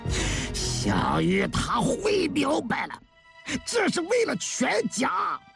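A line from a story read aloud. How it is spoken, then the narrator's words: Sudden shout. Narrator (Chinese): 孙文举突然吼了起来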